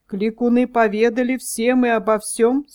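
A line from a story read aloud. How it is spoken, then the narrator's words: Plain question. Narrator (Russian): спросил князь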